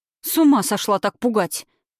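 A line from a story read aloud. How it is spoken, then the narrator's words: Barked. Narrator (Russian): гаркнула на нее Катерина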